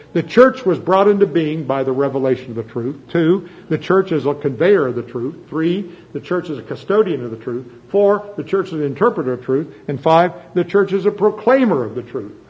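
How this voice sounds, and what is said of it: Reading a list very fast. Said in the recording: “I'm saying that fast, right?”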